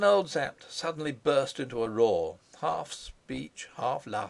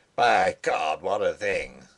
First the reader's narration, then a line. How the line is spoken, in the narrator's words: he roared